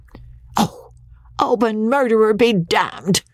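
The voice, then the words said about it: Squeaky enraged falsetto. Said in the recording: “squeaked Andy in his falsetto of utter rage”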